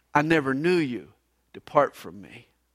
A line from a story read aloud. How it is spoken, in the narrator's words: will hear